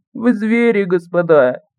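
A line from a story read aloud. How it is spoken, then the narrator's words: Small voice moaning. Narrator (Russian): голосок простонав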